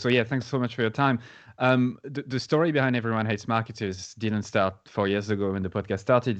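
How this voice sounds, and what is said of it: French accent. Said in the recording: “I'm very French. And that's the accent you're going to hear today.”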